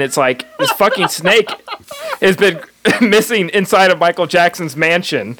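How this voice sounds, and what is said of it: Usual voice. Nothing is said of it.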